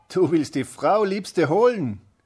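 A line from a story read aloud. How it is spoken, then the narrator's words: Mocking call. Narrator (German): rief höhnisch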